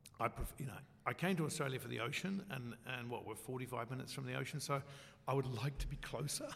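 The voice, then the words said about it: Hoarse, nearly lost voice. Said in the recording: “virtually lost my voice”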